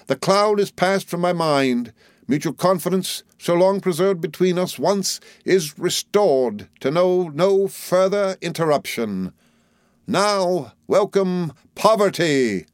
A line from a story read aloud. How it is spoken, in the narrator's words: cried Mr